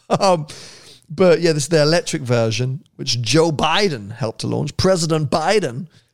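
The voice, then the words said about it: Speaks in a put-on American accent. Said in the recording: “I've done my American accent again.”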